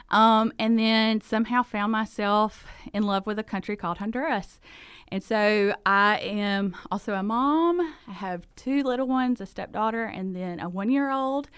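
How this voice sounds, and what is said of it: Southern US accent. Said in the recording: “I'm a South Georgia girl, grew up there, and so that is the reason for the accent”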